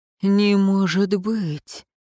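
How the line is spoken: Breathless exhale. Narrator (Russian): выдохнул Светлейший

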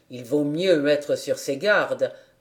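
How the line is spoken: Low voice. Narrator (French): répondit Monsieur Zezeman à voix basse

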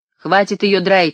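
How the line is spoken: Shout. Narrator (Russian): крикнул

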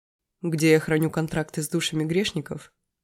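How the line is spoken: Snort. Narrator (Russian): хмыкнул он

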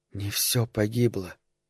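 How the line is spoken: Audible whisper. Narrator (Russian): произнес еще раз слышным шепотом

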